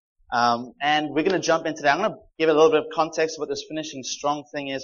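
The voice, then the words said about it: South African accent. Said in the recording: “We recently moved from Cape Town, South Africa. So if it doesn't sound like a genuine Canadian accent, it's because it's not.”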